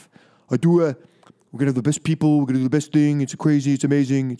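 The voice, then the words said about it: Imitates another person's voice. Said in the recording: “do a Donald Trump impression. ... I do it on the radio a little bit, but I can't really do it live ... It's just not that good”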